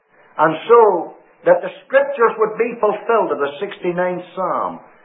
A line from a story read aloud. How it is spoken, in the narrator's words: the Savior cried